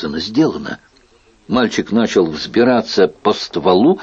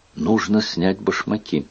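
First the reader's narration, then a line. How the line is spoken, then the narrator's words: Whispered. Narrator (Russian): Генрих прошептал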